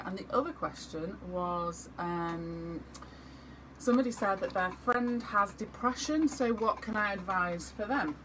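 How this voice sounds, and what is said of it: Manchester English accent. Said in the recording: “where is my accent from? ... Manchester”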